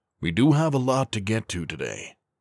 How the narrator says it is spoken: Williams cut in, sighing through his own mirth

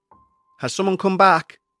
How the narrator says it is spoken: shouted

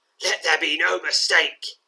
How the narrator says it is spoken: he snarls

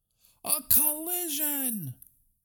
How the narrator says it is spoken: shouted the crowd

